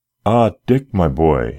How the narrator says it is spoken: exclaimed joyfully

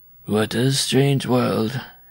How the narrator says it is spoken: muttered

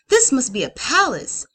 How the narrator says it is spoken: Quartery gasped

